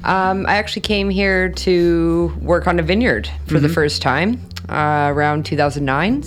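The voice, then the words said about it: Canadian accent. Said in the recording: “With a Canadian accent.”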